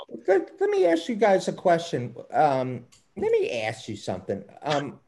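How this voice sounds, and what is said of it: Put-on Baltimore accent. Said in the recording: “That's my Baltimore accent.”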